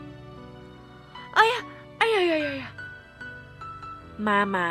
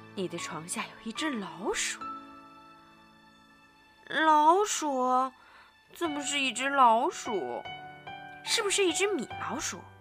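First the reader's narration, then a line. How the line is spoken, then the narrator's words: Lowered hushed voice. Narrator (Chinese): 他压低嗓门儿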